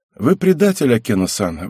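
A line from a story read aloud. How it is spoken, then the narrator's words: Sighing. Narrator (Russian): вздохнул я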